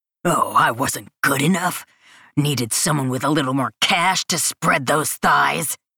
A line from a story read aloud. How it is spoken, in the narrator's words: whispers angrily